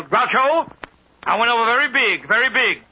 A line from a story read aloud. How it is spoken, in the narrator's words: Sophie came down the gangplank, she spotted Groucho and yelled